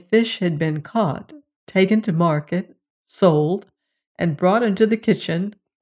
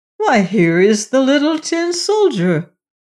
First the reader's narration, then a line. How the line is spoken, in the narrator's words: a voice exclaimed